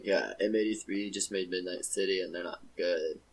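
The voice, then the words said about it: Impression of a hipster. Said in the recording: “my impression of a hipster”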